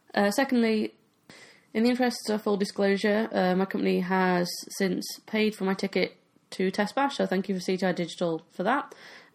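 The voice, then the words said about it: Voice slightly off from cold. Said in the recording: “I've got a bit of a cold, so if my throat or voice is a bit weird”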